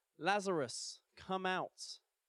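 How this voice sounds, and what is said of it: Loud called-out line. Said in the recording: “called in a loud voice”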